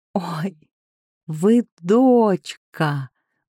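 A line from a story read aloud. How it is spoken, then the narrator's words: Joyful breathy exclamation. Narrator (Russian): выдохнула радостно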